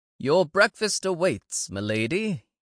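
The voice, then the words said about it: English butler accent. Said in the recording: “in his best English butler accent”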